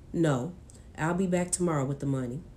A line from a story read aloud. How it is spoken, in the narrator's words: he answered in a monotone